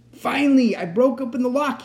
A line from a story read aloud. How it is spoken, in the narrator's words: he shouted